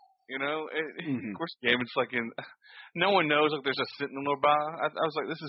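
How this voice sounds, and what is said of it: Usual voice. Nothing is said of it.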